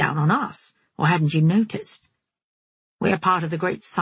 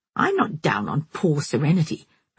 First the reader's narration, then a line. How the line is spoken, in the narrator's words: Miranda said indignantly